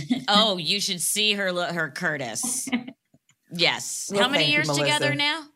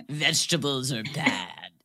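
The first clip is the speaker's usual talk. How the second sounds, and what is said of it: Imitates another person's voice, sexy-sounding. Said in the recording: “my imitation of Curtis ... Sounds like a sexy man.”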